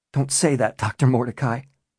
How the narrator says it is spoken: Bennett pleaded, his voice wavering

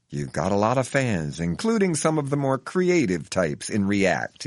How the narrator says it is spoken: he says with a friendly chuckle

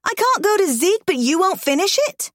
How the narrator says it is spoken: I yell

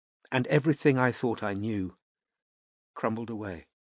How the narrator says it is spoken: said Anna quietly

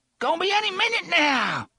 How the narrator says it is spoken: Detta screamed

